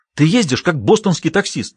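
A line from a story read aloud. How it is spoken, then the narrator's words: Indignant exclamation. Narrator (Russian): негодующе воскликнула Джулия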